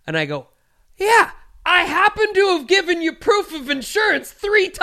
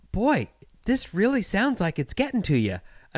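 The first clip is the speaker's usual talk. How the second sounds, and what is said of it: Friendly, condescending Midwestern accent. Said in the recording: “I don't know if it's Wisconsin accent, Indiana accent, but it's the friendliest, most condescending fucking accent ... it's just this accent”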